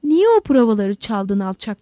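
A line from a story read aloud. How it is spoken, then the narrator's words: Crying out. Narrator (Turkish): diye haykırdı Lowell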